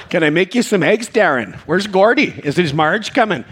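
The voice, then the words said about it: Put-on North Dakota accent. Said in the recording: “North Dakota ... That accent is charming for about a day”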